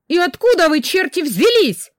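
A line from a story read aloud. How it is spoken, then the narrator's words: Angry shouting. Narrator (Russian): зло кричала я им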